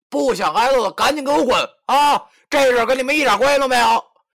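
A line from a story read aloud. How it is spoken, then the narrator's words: Shouting. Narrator (Chinese): 对着那帮人喊道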